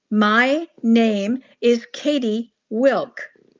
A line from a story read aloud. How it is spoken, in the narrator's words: I said slowly, as if speaking to a child